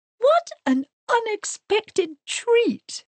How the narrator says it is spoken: exclaimed Mrs

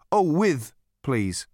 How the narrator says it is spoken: said Ford

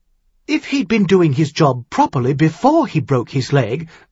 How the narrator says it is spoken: Elaine Maguire said harshly

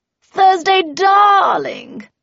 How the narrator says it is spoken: cried Cordelia

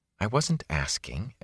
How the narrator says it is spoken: Egwene muttered into her cloak

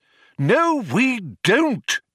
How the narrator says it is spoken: exclaimed Magic Thighs in irritation

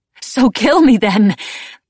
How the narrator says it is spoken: choked

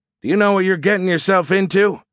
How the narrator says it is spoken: Porter shouted back

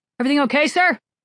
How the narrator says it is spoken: someone called out

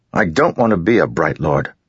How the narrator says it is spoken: Kaladin snapped, perhaps more harshly than he should have

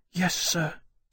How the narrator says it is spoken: Salyer whispered

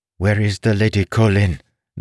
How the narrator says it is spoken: the voice demanded, speaking Alith with a strange accent

